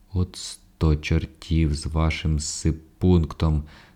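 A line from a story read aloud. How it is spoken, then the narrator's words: Plain. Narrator (Ukrainian): сказав комендант прийомщику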